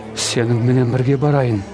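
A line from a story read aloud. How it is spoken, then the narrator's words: Pleading. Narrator (Kazakh): деп жалынды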